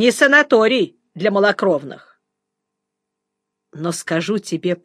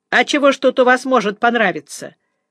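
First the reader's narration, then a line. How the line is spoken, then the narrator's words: Cowardly, spiteful snarl. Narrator (Russian): ощерился Бесяев трусливо и зло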